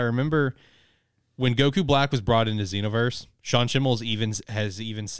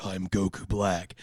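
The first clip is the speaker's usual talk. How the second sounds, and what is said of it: Dark, evil character voice. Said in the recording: “make it like Goku, but evil. So it's like really dark.”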